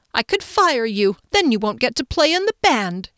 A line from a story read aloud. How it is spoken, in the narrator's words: said triumphantly